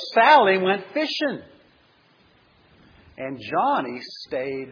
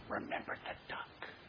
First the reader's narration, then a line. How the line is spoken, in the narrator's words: She whispered again